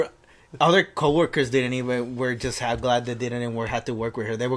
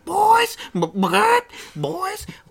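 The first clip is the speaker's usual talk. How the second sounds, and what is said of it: Raspy cartoonish woman's voice yelling. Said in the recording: “her voice, her freaking Lois Griffin, fused with Bonnie, Joe's wife ... It's both of them fused ... I can't sound as nasty as her ... raspy”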